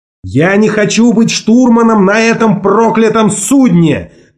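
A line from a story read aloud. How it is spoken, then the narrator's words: Defiant shout. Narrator (Russian): крикнул с вызовом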